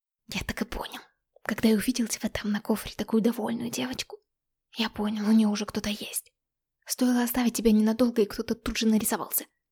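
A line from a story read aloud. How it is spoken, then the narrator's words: Indignant whisper. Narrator (Russian): возмущенно шептал Артём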